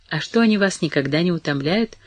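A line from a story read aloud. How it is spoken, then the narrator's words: Soft, cautious. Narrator (Russian): продолжал он все так же мягко, боясь задать вопрос в более определенной форме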